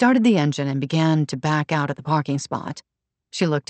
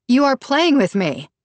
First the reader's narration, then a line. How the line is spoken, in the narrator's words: yelled